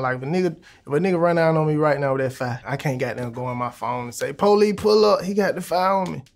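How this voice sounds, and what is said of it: Atlanta, Georgia accent. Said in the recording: “That young man there is from Atlanta, Georgia. ... they do have a similar way of speaking ... that's 100% ATL right there ... That's the Atlanta accent”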